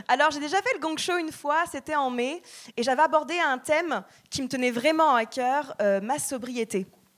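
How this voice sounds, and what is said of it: Haughty, condescending-sounding French accent. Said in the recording (French): “malgré cet accent hyper condescendant et hyper arrogant, euh, je ne suis pas parisienne”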